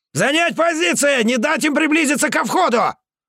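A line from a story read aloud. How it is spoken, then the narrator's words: Shout. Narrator (Russian): крикнул Морозов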